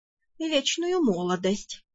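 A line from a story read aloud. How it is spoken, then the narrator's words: Absent-minded purr under breath. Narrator (Russian): рассеянно промурлыкал некромант себе под нос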